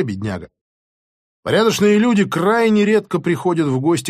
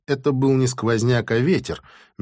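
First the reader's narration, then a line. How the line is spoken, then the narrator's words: Soft objection. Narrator (Russian): мягко возразил я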